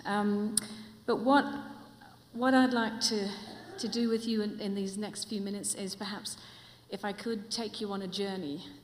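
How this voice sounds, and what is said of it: Mixed New Zealand, Australian, English accent. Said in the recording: “my accent, it's actually not from here. It's a real mongrel accent. It's from New Zealand, Australia, and for the last 15 years, I've been living in England”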